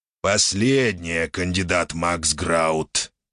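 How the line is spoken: Displeased creature's growl. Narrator (Russian): недовольно прорычало существо

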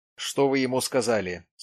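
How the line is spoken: Plain. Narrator (Russian): спросил тот

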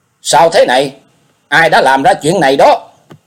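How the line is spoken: Loud, shocked, frightened question. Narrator (Vietnamese): y vừa kinh hãi lại vừa sợ, lớn tiếng hỏi

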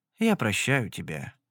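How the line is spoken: Sad reply. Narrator (Russian): грустно ответил Вальцейн

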